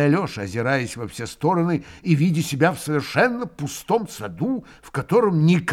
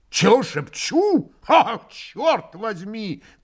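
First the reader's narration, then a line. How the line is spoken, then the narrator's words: Full-voiced shout. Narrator (Russian): крикнул друг Дмитрий Федорович самым полным голосом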